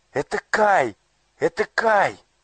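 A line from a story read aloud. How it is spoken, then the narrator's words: Joyful exclamation. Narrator (Russian): радостно воскликнула Герда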